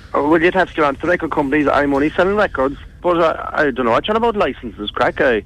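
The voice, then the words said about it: Irish Kerry accent. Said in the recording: “the Kerry accent”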